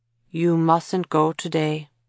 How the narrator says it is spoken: Matt said solemnly

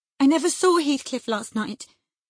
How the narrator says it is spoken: answered Catherine, beginning to sob bitterly

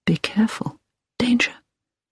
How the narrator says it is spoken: Hilary heard him whisper

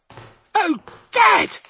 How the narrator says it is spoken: he cried out

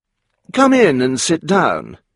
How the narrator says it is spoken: he said warmly

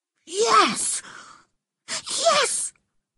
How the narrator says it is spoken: he whispered excitedly

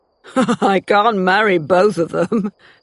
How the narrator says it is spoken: he laughed

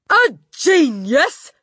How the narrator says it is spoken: she shouted

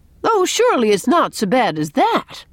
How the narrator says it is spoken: exclaimed Miss Cornelia, sympathetically

